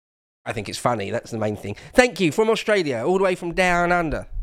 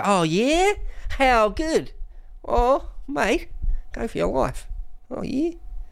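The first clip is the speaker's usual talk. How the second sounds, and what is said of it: Put-on Australian accent. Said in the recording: “my Australian accent isn't too bad and some say it's laughably poor”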